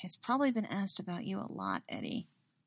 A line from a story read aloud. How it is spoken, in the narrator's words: she mutters